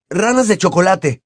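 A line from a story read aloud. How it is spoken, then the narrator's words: Angry shout. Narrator (Spanish): gritó enfadado, sosteniéndose sobre un pie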